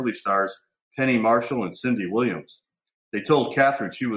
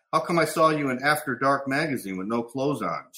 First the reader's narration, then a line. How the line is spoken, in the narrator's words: she asked